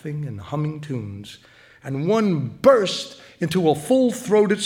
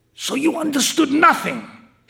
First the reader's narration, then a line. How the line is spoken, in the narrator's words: hissed Senor Melfa angrily